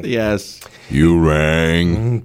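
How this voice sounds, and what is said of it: Impression of Lurch. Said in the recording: “great impression of Lurch ... That was really good.”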